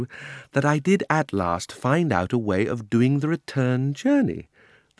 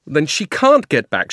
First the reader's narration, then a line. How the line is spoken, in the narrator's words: shouted Diggory